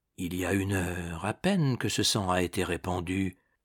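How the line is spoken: Murmuring. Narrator (French): murmura

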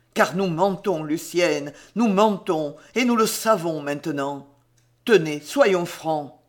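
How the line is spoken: Harsh voice. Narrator (French): il continuait d'une voix dure

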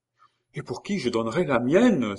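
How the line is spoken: Enthusiastic exclamation. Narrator (French): s'écria Geneviève avec enthousiasme

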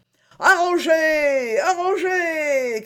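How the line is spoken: Crowd shouting. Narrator (French): criait-on

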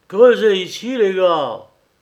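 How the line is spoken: Exclaiming. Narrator (French): s'écria Jean

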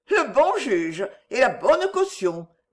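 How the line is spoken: Sneering laugh. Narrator (French): dit Allegria en ricanant

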